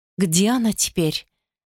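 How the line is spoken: Soft question. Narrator (Russian): мягко спросила Тунова

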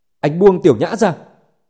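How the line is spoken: Angry yell. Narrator (Vietnamese): tức giận gào

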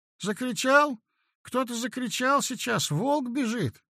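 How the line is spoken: Babbled, frightened. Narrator (Russian): пролепетал я

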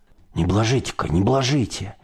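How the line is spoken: Frightened admonishing. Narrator (Russian): Испуганно таращил глаза старшой и наставлял

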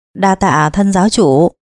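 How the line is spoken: Smiling. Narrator (Vietnamese): Minh Thiên mỉm cười

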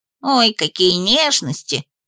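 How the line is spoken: Grumbled. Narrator (Russian): проворчал

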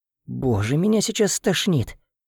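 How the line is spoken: Gloomy whisper. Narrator (Russian): прошептала невеселого, как и я

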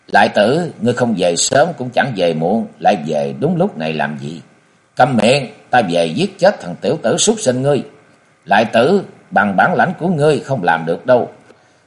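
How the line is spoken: Smiling. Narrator (Vietnamese): Y mỉm cười nói

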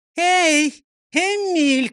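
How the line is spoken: Shouting upward. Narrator (Russian): крикнула она акробату под потолком

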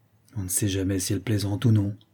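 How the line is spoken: Governess grumbling. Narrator (French): grommela l'institutrice

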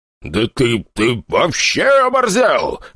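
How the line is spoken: Roaring. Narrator (Russian): взревел Туманов

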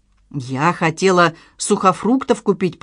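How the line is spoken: Mumbled. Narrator (Russian): пробормотала Надежда

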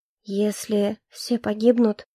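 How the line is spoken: Weak voice. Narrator (Russian): слабым голосом произнесла я

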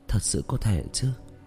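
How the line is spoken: Muttering. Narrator (Vietnamese): Tạ Vũ Tình lẩm bẩm

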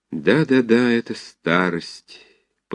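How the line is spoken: Muttered to himself. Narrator (Russian): повторял он про себя

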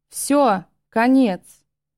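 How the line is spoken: Thundering voice. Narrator (Russian): прогремел голос

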